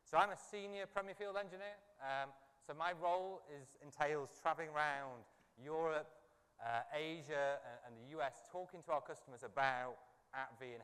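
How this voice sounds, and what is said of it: Non-American, London accent. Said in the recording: “As you can probably tell from my accent, I'm not from the US. I've flown all the way over here from London”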